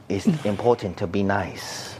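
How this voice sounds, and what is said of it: Put-on Asian accent, believable. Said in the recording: “That was a nice little accent, though. ... the Asian accent is the offensive accent. ... That was actually pretty good. Yeah. Like it was believable.”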